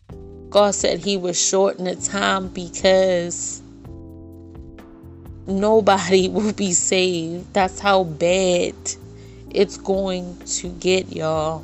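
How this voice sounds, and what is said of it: Sad, emotional voice. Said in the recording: “hear it in my voice ... it just saddens me”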